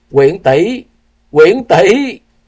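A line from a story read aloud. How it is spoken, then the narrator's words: Pained cry. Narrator (Vietnamese): Tư Đồ Văn đau đớn kêu lên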